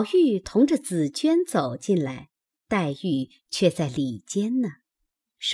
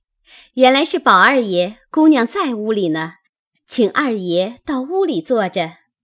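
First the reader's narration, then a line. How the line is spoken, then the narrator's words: Laughing. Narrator (Chinese): 仙莲 笑道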